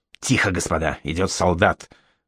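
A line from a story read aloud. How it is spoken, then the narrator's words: Whisper then loud shout. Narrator (Russian): шепнул кто-то и прикрикнул громко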